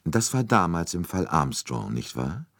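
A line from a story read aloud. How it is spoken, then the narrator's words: Calm. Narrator (German): sagte Poirot ruhig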